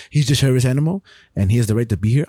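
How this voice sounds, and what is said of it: Put-on French accent. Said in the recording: “he has a French accent.”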